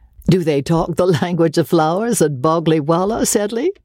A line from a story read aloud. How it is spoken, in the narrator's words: asked Osborne, laughing